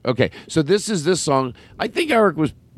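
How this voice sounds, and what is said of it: Yelling, loud excited voice. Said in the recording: “why am I yelling? ... I'm freaking people out ... You rev high”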